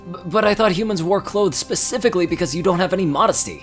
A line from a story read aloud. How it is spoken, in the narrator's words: cried Potluck